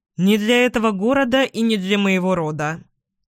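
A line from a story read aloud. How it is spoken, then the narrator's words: Dry reply. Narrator (Russian): сухо ответил Эдвин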